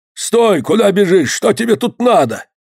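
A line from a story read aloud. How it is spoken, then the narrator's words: Menacing hoarse old voice, curt. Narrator (Russian): Грозно останавливает он мальчика и, схватив его за плечо, хриплым старческим голосом отрывисто спрашивает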